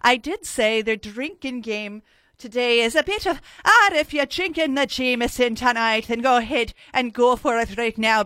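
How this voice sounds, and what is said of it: Bad put-on Irish accent. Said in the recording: “a shitty Irish accent, as I tend to be doing right now... That was shite.”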